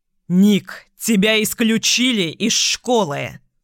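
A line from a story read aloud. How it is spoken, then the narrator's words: Roaring. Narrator (Russian): взревел Майк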